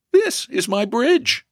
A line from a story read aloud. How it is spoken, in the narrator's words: he replied, smiling brightly